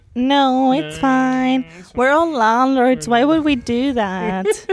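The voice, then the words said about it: Sniveling high-pitched imitated voice. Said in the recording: “It's a very good Leo impression, actually. ... He has that kind of very sniveling, high-pitched voice.”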